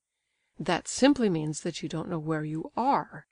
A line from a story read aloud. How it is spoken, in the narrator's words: he exclaimed